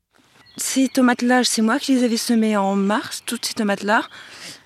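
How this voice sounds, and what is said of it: Slight northern French accent. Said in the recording (French): “elle a bien un petit accent du Nord”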